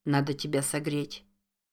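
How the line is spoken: Incoherent muttering. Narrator (Russian): Бессвязно бормотал он

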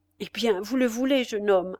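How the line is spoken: Loud voice. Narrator (French): dit Spiagudry, d'une voix haute

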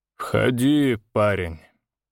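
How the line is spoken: Tired. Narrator (Russian): устало произнес барон

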